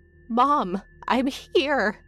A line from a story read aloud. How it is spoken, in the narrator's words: I cried, but my voice died